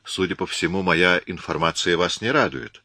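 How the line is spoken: Calm. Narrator (Russian): спокойно сказал Коридон

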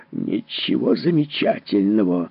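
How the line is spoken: Barked. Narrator (Russian): рявкнул Поттерли

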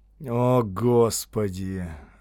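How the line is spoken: Doomed groan. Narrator (Russian): обреченно простонал капитан

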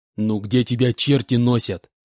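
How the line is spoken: Displeased snort. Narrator (Russian): Недовольно фыркнул Иванович

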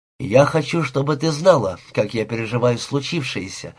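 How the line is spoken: Almost calm. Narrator (Russian): заговорил он почти спокойно

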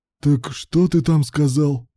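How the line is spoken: Hissing. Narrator (Russian): прошипел Руслан в лицо Алану

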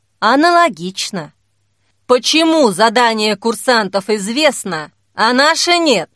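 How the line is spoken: Loud question. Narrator (Russian): Громко спросил

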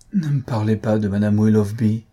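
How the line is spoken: Deep sighing man. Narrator (French): reprit-il avec un profond soupir

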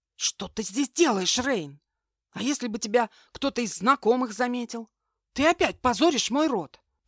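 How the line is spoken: Hissed. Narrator (Russian): прошипел Вилтон

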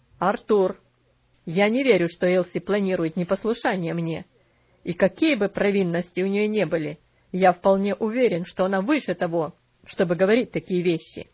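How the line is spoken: Stern voice. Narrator (Russian): ответил мистер Динсмор строгим голосом

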